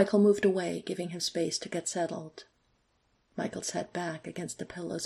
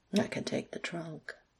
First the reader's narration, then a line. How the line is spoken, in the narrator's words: Alex murmured